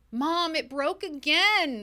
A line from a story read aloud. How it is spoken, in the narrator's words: the toddler yelled through tears